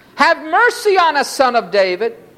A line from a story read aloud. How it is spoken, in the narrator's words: two blind men sitting by the roadside, when they heard that Jesus was passing by, cried out